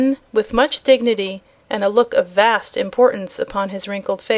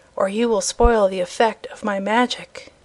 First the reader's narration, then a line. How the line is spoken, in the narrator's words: he whispered to them